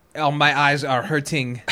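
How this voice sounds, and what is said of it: Imitated Belgian French-like accent. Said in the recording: “can't do his accent. ... Belgium is a weird. It's like French”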